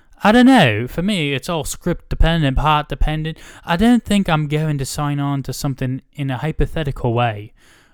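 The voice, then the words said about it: Imitating Emily Blunt's accent. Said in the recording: “that was her accent too. That was pretty good.”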